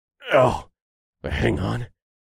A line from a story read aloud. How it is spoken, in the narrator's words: muttered